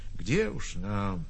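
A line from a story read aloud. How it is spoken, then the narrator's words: Quiet confession. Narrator (Russian): Кто-то сознался в этом, тихо сказав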